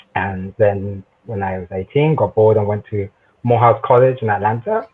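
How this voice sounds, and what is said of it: South London British accent. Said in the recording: “tell by accent, I'm originally from the United Kingdom, a proud son of South London”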